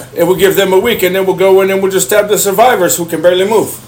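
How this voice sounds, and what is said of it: Put-on Russian accent. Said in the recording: “you sound Russian.”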